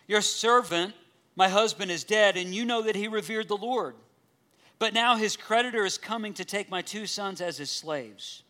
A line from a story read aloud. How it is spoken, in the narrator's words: The wife of a man from the company of the prophets called out to Elisha